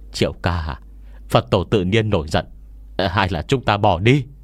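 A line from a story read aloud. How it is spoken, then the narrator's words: Trembling, frightened. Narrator (Vietnamese): run rẩy lên tiếng nói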